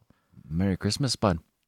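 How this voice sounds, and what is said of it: Put-on Canadian accent. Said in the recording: “Say Merry Christmas in the Canadian accent.”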